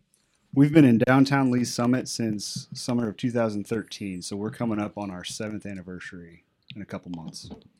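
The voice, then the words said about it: Quiet, smooth, soft-spoken voice. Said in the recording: “going to have to talk a little louder. ... He's doing that smooth jazz voice.”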